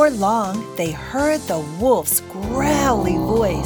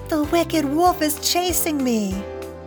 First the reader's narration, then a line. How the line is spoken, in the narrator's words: his first little brother ran through the door and cried